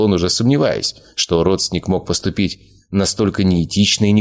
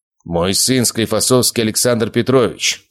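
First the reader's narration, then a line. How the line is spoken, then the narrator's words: Firm voice. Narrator (Russian): твердым голосом начал говорить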